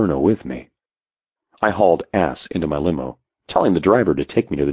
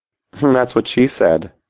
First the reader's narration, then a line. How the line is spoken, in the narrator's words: she giggled, thinking she was so fucking clever